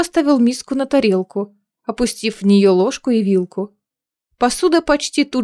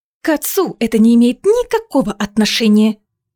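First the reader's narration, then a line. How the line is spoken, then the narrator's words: Hissing. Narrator (Russian): прошипела она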